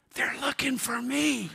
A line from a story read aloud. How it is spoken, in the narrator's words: The little boy whispered